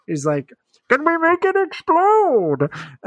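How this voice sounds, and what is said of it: Impression of Bane. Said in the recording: “My impersonations aren't great”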